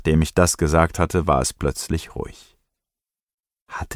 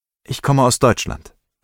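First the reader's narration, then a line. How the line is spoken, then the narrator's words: Plain. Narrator (German): antwortete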